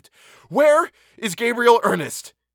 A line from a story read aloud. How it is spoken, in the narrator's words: almost screamed